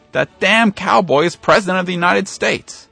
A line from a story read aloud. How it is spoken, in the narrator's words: the campaign manager shouted